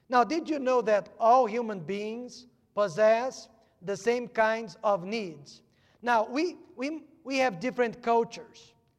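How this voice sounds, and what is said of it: Non-native English accent. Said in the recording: “If I could only fix my accent.”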